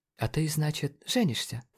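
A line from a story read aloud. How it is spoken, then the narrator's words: Quiet awkward question. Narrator (Russian): тихо спросил МДжей, отводя взгляд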